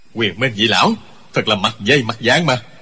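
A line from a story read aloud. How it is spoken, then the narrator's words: Startled shout. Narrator (Vietnamese): Trương Vô Kỵ cá kinh, quát lên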